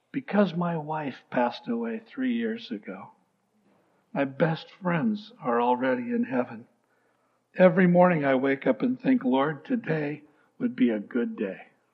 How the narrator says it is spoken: The old gentleman leaned forward and whispered

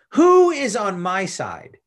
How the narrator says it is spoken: Jehu shouted

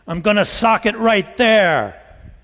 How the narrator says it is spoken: Ruth shouted

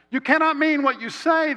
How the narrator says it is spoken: shrieked

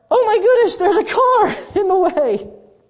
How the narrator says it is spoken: She, in a much more feminine voice than that

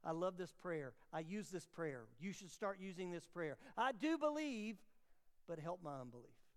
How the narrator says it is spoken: The father instantly cried out

